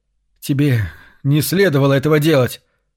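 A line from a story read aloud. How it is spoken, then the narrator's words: Hoarse wheeze. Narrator (Russian): прохрипел наконец Карл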